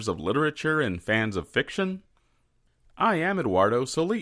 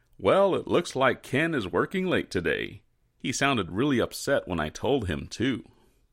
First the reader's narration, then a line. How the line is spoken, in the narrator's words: After placing his cell phone into his jacket with a chuckle, a well-dressed man said